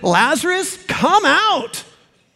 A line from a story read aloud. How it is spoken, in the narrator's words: with raw authority for those dead ears, Jesus shouted